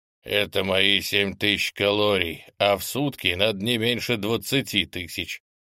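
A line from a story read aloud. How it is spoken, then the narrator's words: Deep booming voice. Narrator (Russian): пробасил великан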